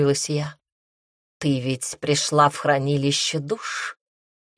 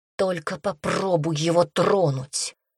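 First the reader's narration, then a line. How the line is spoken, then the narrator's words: Muffled menacing hiss. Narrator (Russian): прошипела я глухо, чувствуя, как удлиняются когти и клыки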